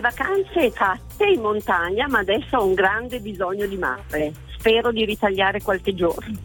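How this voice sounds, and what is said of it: Bergamo-Brescia Italian accent. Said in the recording (Italian): “Siamo tipo a Bergamo, così? ... All'accento. ... Bergamo-Brescia, una cosa così.”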